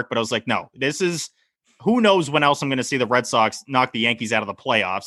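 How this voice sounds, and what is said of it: Boston accent. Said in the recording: “Your Boston accent, man, is on point. You've had a lot of practice with that over the years ... even though he doesn't have one naturally”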